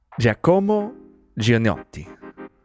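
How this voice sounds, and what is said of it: French Canadian accent. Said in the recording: “I'll say it in the French way, the French Canadian way.”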